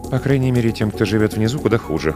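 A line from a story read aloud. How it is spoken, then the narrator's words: Female murmur. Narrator (Russian): пробормотала она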